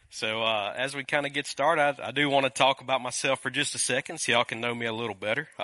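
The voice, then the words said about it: Noticeable regional accent. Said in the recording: “Excuse the accent a little bit, as y'all can, it's a little different.”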